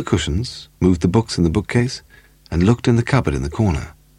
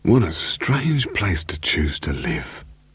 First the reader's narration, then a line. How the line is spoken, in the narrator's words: Charlie Vosper whispered loudly